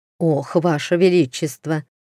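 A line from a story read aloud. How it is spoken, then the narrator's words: Grumbling. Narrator (Russian): бурчал Бивуар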